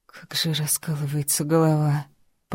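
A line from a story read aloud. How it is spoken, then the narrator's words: Moaned. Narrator (Russian): простонала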